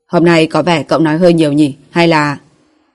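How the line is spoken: Cold tone. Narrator (Vietnamese): Kỷ Viêm giọng điệu lạnh lùng

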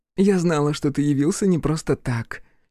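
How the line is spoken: Giggling. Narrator (Russian): хихикнула Альбина

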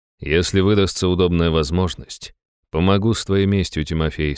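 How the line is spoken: Plain. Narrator (Russian): сказал я

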